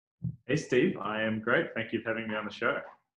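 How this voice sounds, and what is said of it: New Zealand accent. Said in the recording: “I love that accent. ... That's the New Zealand accent, right?”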